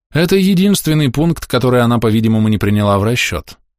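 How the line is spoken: Plain. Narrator (Russian): сказал Кай

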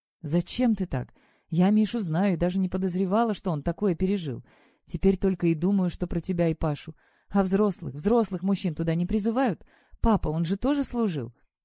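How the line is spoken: Quiet, subdued. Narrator (Russian): тихо ответила Василиса, перестав хорохориться

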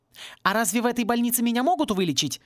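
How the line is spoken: Sharp question. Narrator (Russian): резко спросила Пейджер

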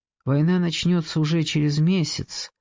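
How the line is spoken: Soft voice. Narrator (Russian): сказал он тем же самым мягким голосом

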